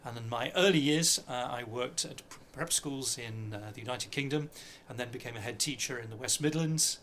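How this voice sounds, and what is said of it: British accent. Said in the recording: “As you probably can tell from my voice, I'm of British origin”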